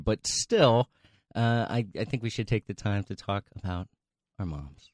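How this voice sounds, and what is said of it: Serious, NPR-style radio voice. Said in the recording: “You got serious... you almost had like an NPR voice”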